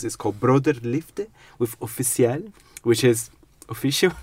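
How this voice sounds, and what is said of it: Put-on French accent. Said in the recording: “I think I've done a French accent.”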